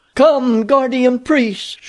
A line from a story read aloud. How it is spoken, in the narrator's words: she cried